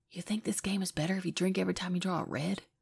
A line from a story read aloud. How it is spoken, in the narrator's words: Biddy whispers to Jack